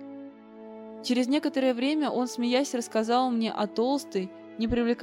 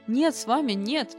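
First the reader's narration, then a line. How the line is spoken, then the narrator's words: Horrified exclamation. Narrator (Russian): воскликнул он в ужасе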